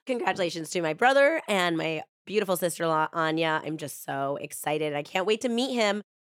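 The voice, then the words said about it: Sick, congested-sounding voice. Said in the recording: “As you guys can tell, my voice is getting a little bit better, but I got this cold”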